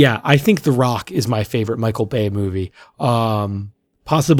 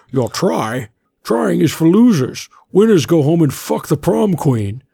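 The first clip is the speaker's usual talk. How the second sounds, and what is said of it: Imitates another person's voice. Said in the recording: “you got the accent pretty good too ... Was I doing Bane or was I doing Sean Connery?”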